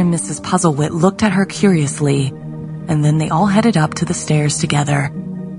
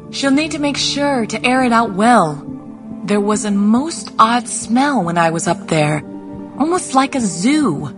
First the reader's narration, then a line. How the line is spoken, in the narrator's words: Lydia, who was halfway munching on a biscuit, called out